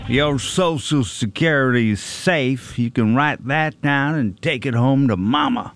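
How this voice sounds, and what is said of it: Southern drawl impression of a politician. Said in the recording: “Don't know who we're doing an impression of, but it's somebody from the South ... He drawls. He has a draw. Drawl?”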